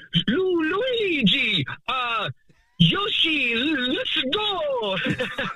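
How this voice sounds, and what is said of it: Cartoonish video game character voice. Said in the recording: “I was good at doing the Mario voice ... pretty good, right?”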